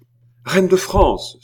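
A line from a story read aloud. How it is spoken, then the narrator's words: Sudden exclamation. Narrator (French): s'écria-t-il tout à coup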